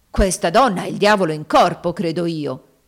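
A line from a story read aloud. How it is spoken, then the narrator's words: Exclaimed. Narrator (Italian): esclamò Haley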